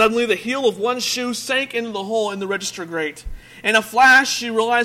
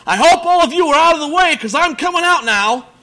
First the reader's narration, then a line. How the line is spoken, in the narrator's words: a voice was heard under the church shouting